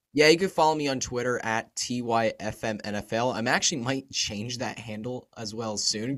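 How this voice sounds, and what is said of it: Froggy, hoarse voice. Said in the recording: “my voice is a bit froggy today. I've been really sick over the weekend. My throat's been really sore, so my voice is definitely a bit froggy ... not the most audibly pleasing voice”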